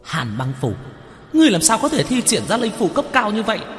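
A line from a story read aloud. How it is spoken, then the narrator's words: Disbelieving ghost's shout. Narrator (Vietnamese): Tử nhãn lệ quỷ khó tin hét lên một tiếng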